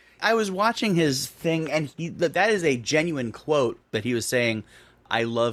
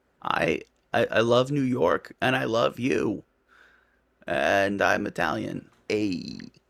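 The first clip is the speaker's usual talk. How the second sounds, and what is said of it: Imitates another person's voice. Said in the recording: “I did a much better Cuomo impression earlier today ... They're both bad ... They somehow both spot on, though.”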